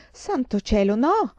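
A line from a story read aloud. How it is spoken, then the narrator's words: Mother's horrified exclamation. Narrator (Italian): esclamò mamma orripilata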